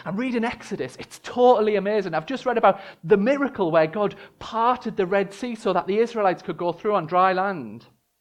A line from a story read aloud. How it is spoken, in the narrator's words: she excitedly tells him